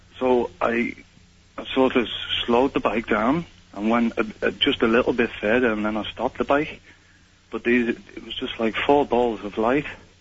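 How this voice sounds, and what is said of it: British accent. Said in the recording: “Why do you have a British accent?”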